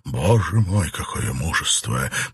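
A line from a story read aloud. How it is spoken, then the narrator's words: Muttered. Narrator (Russian): пробормотал какой-то англичанин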